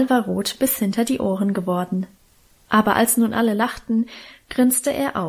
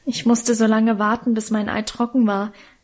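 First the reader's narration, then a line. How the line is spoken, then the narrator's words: Plain. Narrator (German): sagte er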